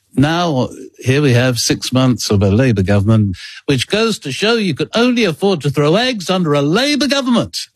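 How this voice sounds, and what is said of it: Harold Wilson impression. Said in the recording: “I can do it with the Harold Wilson impersonation”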